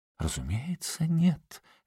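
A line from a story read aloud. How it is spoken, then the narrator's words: Tender singsong. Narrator (Russian): нежно пропела Сильвия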